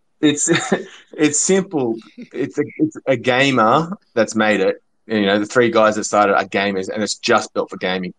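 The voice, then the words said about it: Australian accent. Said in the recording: “do I hear an Aussie accent?”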